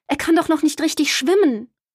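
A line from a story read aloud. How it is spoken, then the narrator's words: Mother calling out. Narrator (German): rief Mama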